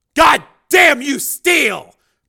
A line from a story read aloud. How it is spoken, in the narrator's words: Borodini shouted